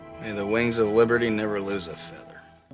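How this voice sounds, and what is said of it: John Wayne impression. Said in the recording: “Kurt Russell's doing an obvious John Wayne impression.”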